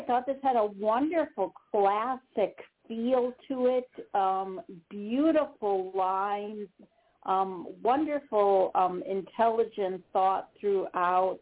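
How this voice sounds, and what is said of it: Wisconsin accent. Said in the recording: “my Wisconsin accent comes through”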